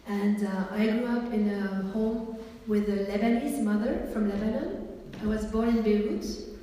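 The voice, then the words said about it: French-speaking Swiss accent. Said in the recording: “I'm from Switzerland, and ... is French, as you have been guessing already from our accents. French is our mother tongue.”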